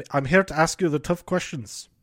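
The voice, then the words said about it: Poor imitation of another person's voice. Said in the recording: “That's a bad impression. All of these are bad impressions.”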